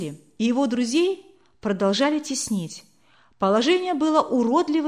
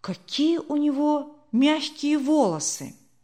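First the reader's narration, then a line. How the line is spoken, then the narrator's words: Incongruous remark. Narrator (Russian): другой не к месту сказал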